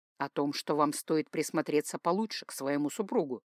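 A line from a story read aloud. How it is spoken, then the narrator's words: Calm. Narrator (Russian): спокойно отозвался Дамиан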